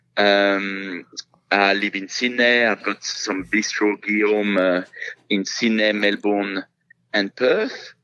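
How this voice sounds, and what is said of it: French accent. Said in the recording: “after having been here for 25 years, you still have your accent.”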